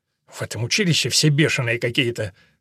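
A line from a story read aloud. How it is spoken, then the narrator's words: Muttered. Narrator (Russian): пробормотал человек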